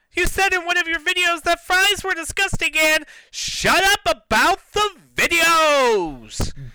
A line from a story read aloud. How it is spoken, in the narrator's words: Bella screamed